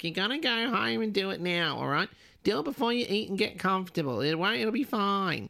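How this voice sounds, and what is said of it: Poor impression of her mother's voice. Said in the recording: “Sorry, Mum, that was a terrible impression. ... sounds just like her.”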